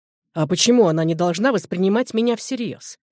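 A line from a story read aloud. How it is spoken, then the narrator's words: Sharp question. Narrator (Russian): резко осведомился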